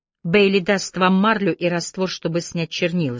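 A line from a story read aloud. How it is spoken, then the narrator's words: Plain. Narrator (Russian): сказал Аллейн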